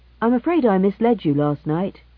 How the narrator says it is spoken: said Alvin cheerfully

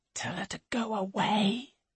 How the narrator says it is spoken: whispers George

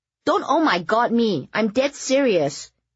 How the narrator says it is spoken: Eleanor said indignantly as she chewed

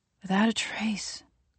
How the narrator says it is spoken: Gwendy repeats in a whisper

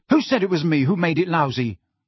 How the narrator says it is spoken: Ron snapped

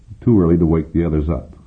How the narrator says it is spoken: he said

